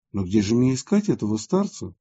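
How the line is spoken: Plain. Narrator (Russian): спросил Валериан

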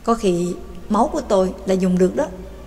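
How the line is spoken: Muttering. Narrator (Vietnamese): lẩm bẩm nói

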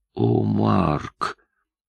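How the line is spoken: Sad whisper. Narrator (Russian): печально прошептала она

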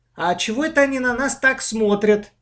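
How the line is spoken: Sudden loud question. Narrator (Russian): вдруг громко спросила Маша

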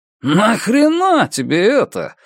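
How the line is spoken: Mock indignant exclamation. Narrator (Russian): воскликнул Уолли в притворном возмущении

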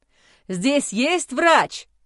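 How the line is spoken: Roaring. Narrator (Russian): взревел Майло

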